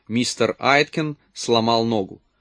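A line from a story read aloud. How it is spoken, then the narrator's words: Quiet, calm voice. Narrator (Russian): Пат сказала своим тихим, спокойным голосом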